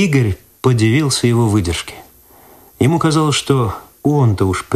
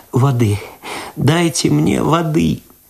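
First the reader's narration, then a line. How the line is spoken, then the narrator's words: Sobbing moan. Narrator (Russian): В голос зарыдала Люда ... простонала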